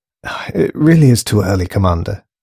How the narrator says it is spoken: sighed the woman

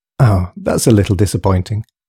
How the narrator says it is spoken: sighed Susan, upon seeing the hopeless repetition of the scene

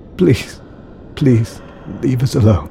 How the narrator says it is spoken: croaked Alex through his tears

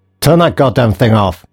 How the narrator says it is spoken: snapped Boynes

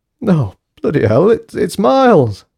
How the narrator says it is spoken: moaned Keith

